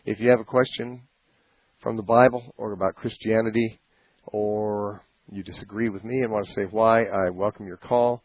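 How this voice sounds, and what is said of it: Voice not sounding normal. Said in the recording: “back from laryngitis during all that ... I'm still not normal ... My voice is not my normal voice”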